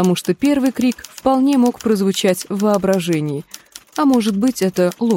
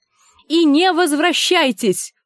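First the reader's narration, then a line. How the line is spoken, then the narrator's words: Shouting after someone. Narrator (Russian): крикнула вдогонку Гленда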